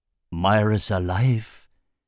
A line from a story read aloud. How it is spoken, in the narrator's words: he croaked